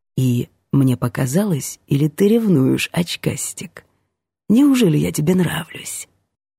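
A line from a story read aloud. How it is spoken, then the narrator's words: Whispered. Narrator (Russian): Ванька наклонился, чтобы прошептать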